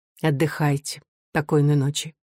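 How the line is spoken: Quiet. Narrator (Russian): Софья тихо сказала

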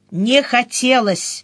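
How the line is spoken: Sharp curt. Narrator (Russian): резко ответил он

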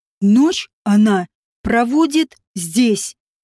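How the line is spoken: Through gritted teeth. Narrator (Russian): процедил Нагашейд

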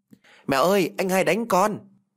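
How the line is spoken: Shouting while running. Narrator (Vietnamese): Vừa thét tôi vừa chạy vào trong nhà

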